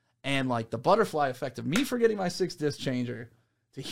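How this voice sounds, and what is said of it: Usual voice. Nothing is said of it.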